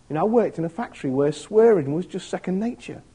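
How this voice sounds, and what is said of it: Grimsby English accent. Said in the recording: “my Grimsby accent”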